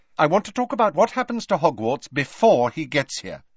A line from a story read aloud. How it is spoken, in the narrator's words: she said quickly